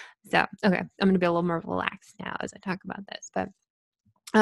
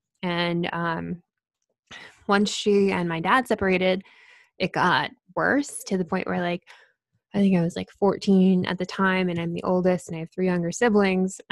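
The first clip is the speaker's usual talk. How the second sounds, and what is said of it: Talking very fast, barely breathing. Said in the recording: “I'm talking so fast. ... I feel like I'm not breathing.”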